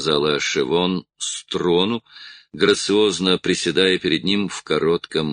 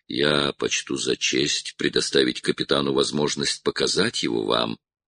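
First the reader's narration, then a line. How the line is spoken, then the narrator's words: Plain. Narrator (Russian): ответил Сергеев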